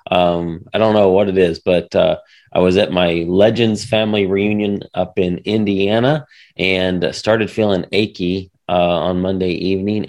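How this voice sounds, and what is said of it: Voice sounds sick, recovering. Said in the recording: “you might be able to tell in my voice, but I'm getting over something”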